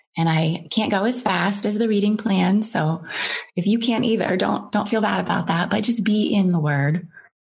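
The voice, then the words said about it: Emotional, slightly teary voice. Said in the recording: “I don't know why that made me a little teary eyed there.”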